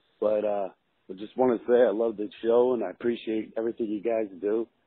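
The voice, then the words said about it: Sick-sounding voice. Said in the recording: “Sorry about my voice. I'm getting over a little bug that I caught.”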